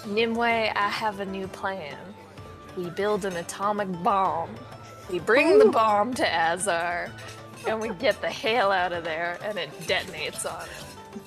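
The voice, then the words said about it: Exaggerated country drunk accent. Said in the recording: “You went full country. ... That's my drunk accent.”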